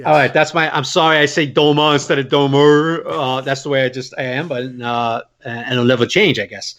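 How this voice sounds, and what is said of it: Brooklyn Staten Island accent. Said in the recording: “my Brooklyn Statenese ... Brooklyn Statenese accent”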